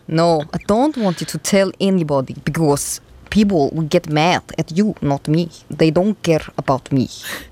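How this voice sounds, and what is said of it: Very good put-on Russian accent. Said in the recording (Danish): “Det er sygt god russisk accent.”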